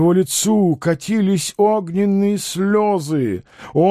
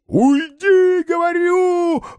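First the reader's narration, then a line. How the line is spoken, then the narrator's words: Yelling. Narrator (Russian): вопил Никита Пряхин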